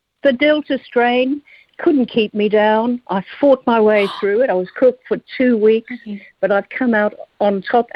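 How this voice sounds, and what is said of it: Australian accent. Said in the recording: “an Australian accent”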